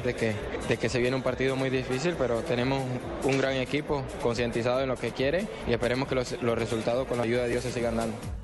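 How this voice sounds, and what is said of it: Partly Spanish, Andalusian-sounding accent. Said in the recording (Spanish): “está hablando como medio españolete, ¿no? Medio andaluz. ... está hablando con acento español”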